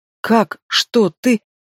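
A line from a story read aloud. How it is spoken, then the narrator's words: Stammering, at a loss. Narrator (Russian): Заикаюсь, не в силах сформулировать мысль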